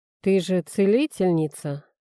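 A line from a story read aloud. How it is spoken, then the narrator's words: Lazy, insolent. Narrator (Russian): лениво уточнил рыжеволосый, невероятно красивый и невозможно наглый аристократ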